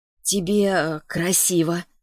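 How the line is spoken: Hoarse. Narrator (Russian): проговорила она хрипло

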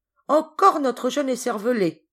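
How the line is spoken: A hunter's exclamation. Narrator (French): s'exclama un des chasseurs

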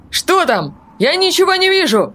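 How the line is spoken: Panicked terrified yell. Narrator (Russian): Завопил Антуан Ричи, который от страха уже почти ничего не соображал

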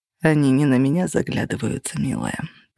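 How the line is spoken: Muttering. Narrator (Russian): пробормотал Кости

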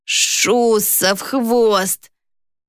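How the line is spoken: Hissing marquis. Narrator (Russian): прошипел маркиз

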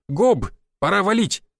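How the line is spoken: Shouted. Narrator (Russian): выкрикнул я

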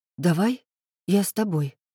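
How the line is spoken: Timid offer. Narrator (Russian): робко предложила Соня

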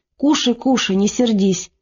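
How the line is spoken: Soft whispering. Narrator (Russian): Наталья пришептывая

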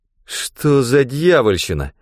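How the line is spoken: Strained. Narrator (Russian): выдавил Рэндом

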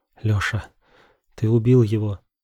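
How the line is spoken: Trembling voice. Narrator (Russian): дрожащим голосом проговорила Вика

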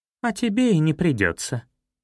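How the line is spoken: Cheerful interruption. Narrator (Russian): весело перебила Зоя

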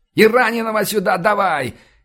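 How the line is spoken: Losing patience, yelling. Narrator (Russian): не выдержав, заорал я

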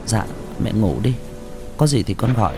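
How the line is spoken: Soft. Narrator (Vietnamese): Linh khẽ nói

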